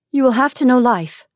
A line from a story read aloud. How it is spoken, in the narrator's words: she declared, and her voice trembled with earnestness